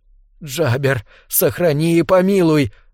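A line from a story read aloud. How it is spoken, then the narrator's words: Breathless. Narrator (Russian): выдохнула Беллис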